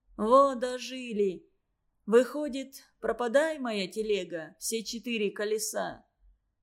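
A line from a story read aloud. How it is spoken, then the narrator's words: Calm wounded sailor. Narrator (Russian): сказал неожиданно спокойным голосом раненый в голову моряк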